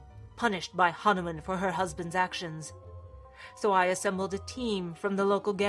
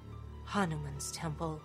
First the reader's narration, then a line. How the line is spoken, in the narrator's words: Augustus breathed